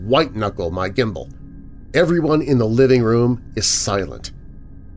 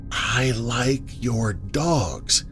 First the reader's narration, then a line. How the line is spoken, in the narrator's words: It whispers